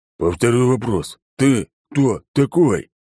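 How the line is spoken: Emphatic growl. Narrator (Russian): прорычал он, выделяя слова

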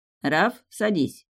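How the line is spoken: Unnaturally calm. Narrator (Russian): слишком спокойно сказал Деян

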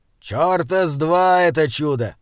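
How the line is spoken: Rough, suppressing emotion. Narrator (Russian): грубо сказал Изгрим, стараясь утихомирить разрывающееся сердце

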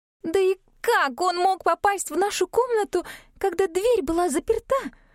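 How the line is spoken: Ringing exclamation. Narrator (Russian): звонко воскликнула Габи

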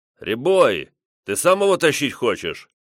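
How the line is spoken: Older bandit barking. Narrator (Russian): рявкнул, старший из бандитов

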